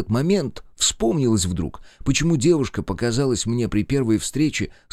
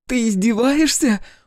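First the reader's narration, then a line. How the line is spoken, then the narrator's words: Shouting. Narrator (Russian): буквально закричала Лена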